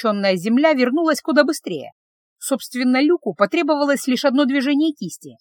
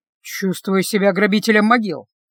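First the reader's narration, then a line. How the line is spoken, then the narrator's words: Grumbling. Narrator (Russian): проворчал Люк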